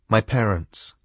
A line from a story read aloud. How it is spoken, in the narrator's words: said Caroline